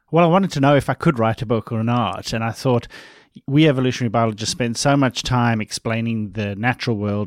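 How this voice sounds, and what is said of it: Slight Australian accent. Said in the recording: “I have this nondescript somewhere in the middle of the Indian Ocean accent ... that I sound Australian ... I feel like you have a little bit of that. I love the Australian accent.”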